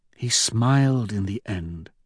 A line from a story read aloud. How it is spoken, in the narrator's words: she says softly